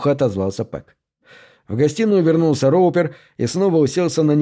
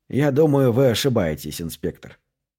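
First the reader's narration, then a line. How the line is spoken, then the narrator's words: Calm objection. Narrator (Russian): спокойно возразил Кьюлик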